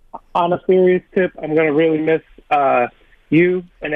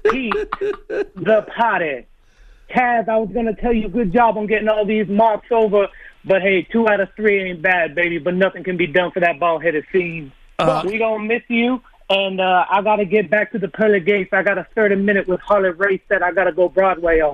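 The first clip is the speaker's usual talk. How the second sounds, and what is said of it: Dusty Rhodes impression. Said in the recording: “Really good Dusty Rhodes impersonation.”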